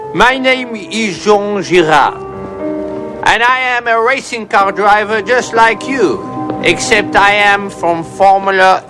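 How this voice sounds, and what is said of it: Exaggerated put-on French accent. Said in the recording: “you sound like a dog with peanut butter on the roof of your mouth ... what you are hearing is my accent. I am French”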